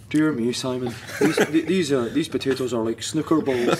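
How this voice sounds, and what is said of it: Imitated Montrose Scottish accent. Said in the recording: “he had that Mad Montrose accent”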